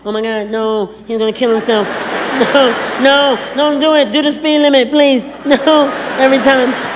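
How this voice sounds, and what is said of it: Imitates a woman's voice. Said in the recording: “my impression of women”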